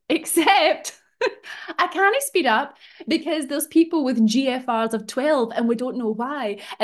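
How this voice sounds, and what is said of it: Scottish accent. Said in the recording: “Hashtag Scottish accent.”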